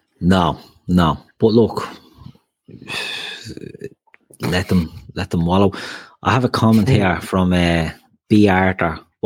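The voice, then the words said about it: British English accent. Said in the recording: “I think that's a dig at my pronunciation. I don't speak limey ... me limey accent”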